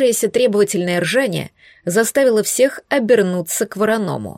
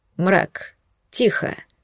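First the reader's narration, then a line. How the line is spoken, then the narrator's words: Stern command. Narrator (Russian): строго скомандовал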